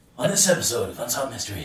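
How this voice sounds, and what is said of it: Creepy TV documentary host voice. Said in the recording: “Unsolved Mysteries. Kind of sounds like him, the host... I'd have to have much more of a creepy voice.”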